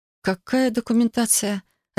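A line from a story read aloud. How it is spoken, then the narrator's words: Confused question. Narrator (Russian): растерянно переспросила я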